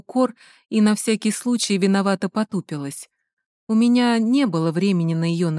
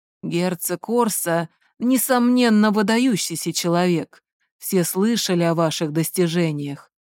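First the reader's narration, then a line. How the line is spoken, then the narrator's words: Hoarse fatherly voice. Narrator (Russian): хрипло проговорил отец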